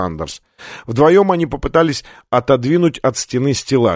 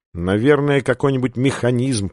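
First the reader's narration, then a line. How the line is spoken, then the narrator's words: Muttered. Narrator (Russian): пробормотал Сандерс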